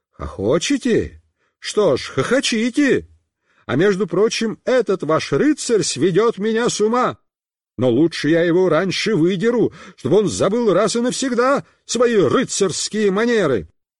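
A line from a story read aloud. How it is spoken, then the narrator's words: Shouting. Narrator (Russian): папа закричал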